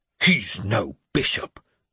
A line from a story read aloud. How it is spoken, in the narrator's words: Swithrid hissed